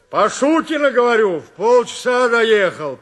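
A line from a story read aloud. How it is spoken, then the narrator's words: Shouted. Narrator (Russian): прокричал Василий Андреевич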